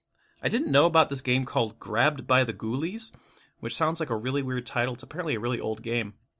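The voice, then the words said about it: Hoarse, fading voice. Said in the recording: “if you can't tell, my voice is starting to go”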